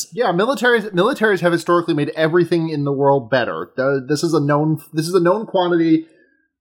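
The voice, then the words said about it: Sarcastic tone. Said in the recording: “you say that sarcastically”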